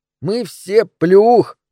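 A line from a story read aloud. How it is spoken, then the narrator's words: Muffled guffawing. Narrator (Russian): хохотал Джеймс, уткнувшись носом в подол моего платья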